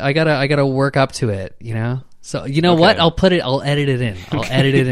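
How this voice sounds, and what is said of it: Usual voice. Nothing is said of it.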